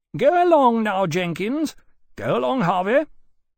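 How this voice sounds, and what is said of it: Drawling, affected accent. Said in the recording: “in his drawling, affected accent”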